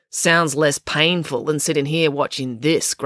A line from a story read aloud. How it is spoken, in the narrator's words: grumbled April